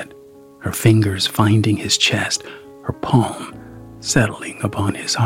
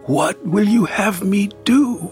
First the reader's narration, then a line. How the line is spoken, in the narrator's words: he asked desperately